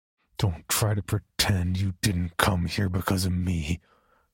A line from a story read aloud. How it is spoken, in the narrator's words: I snarled